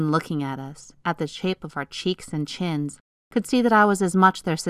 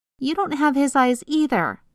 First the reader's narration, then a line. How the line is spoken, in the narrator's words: shouted, determined not to cry